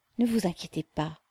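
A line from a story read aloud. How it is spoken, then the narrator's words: Mother murmuring. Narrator (French): murmura la mère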